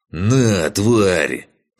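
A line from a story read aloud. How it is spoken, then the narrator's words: Growling. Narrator (Russian): прорычал он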